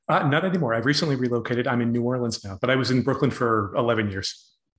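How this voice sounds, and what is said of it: American accent. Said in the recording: “people will have realized by your accent that you're my first transatlantic guest. You live in New York”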